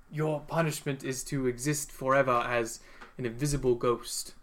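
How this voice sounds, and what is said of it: Unidentifiable put-on character accent. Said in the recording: “I don't know what this accent is, sorry.”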